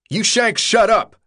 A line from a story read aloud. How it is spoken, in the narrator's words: Albie yelled